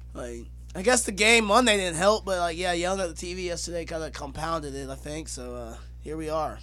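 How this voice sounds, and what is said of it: Hoarse, strained voice. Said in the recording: “I'm losing my voice, and I was just yelling at the TV yesterday”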